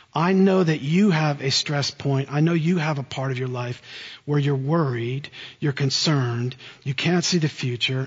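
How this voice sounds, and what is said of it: New Jersey American accent. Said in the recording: “You can tell by my accent, I didn't grow up in South Carolina. I grew up in central New Jersey.”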